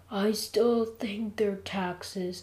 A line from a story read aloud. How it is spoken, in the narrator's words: I said weakly, sweating like crazy